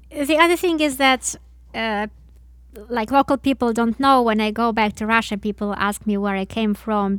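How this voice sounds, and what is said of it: Non-native English accent. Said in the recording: “I would not want to take away your accent ... it has this unique touch to it ... You're making a decision to sing with that accent”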